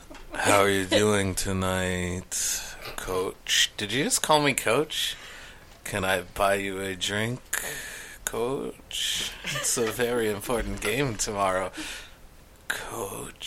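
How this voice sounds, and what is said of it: Seductive, sultry tone of voice. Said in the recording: “There was such an eroticness to the tone. ... try that voice.”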